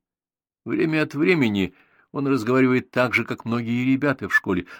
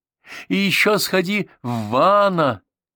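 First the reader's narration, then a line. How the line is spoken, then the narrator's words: Aunt shouting. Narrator (Russian): крикнула тетушка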